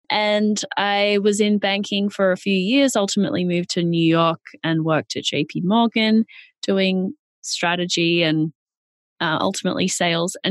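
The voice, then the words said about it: Australian accent. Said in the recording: “I'm Australian. That's where the accent is from.”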